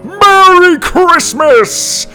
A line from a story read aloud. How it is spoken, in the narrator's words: Santa shouted